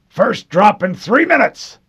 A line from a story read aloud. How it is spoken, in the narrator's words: Mendez barked